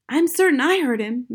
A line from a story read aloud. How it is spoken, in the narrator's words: Matilda cried